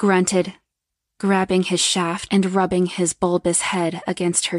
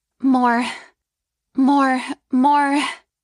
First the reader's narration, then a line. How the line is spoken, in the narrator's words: she demanded, moaning with a high-pitched voice